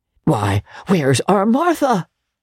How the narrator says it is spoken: cried Bob Cratchit

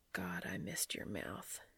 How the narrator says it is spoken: he whispered

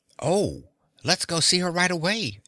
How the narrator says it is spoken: exclaimed Dorothy excitedly

